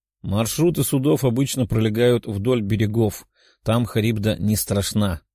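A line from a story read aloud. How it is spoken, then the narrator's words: Plain male. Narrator (Russian): ответил подходящий мужчина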